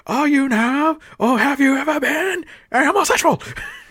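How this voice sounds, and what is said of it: Over-the-top accented cop voice. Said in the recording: “that cop's accent and his voice was so over the fucking top”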